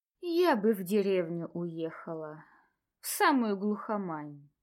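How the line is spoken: Sighing. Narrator (Russian): вздохнула Анна

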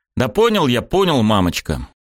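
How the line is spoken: Irritated, dismissive. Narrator (Russian): раздраженно отмахнулся

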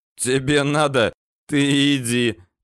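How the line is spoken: Hoarse guffaw. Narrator (Russian): заржал сиплый

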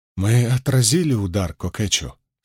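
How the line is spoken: Trembling voice. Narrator (Russian): спросил хан дрогнувшим голосом

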